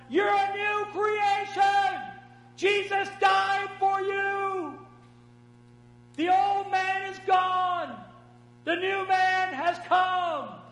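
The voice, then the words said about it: Shouting voice of God. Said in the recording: “He's shouting down from heaven”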